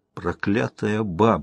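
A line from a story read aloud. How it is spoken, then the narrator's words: Grumbling. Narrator (Russian): ворчал он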